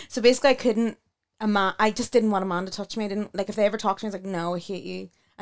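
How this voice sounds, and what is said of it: Speaks with a strong accent. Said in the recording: “I can't understand your accent.”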